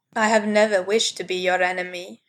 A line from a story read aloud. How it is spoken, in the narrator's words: said brokenly